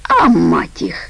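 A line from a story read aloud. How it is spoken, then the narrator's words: Snorting dismissive voice. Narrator (Russian): фыркнул тот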